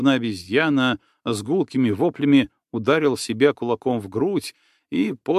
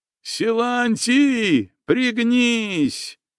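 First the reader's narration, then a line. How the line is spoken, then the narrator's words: Shouting with full force. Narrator (Russian): что есть силы, закричал здоровенный Чугреев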